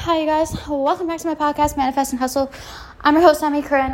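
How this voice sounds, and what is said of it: Out of breath, breathless speech. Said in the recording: “I'm like out of breath. I just ran up my stairs.”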